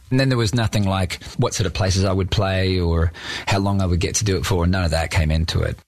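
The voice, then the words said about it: Australian accent. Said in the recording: “that Australian accent coming through”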